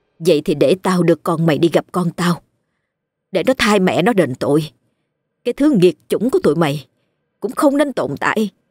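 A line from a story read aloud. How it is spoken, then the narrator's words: Harsh, menacing. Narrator (Vietnamese): Dung gằn giọng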